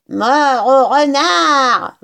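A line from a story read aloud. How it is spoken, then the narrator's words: Bellowed. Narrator (French): vociféra Buns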